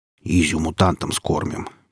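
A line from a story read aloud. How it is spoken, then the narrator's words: Grumbled. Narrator (Russian): проворчал Велес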